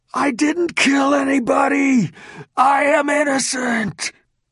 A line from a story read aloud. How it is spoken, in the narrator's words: His deep, raspy voice rattled through the southwest quad and disrupted the quiet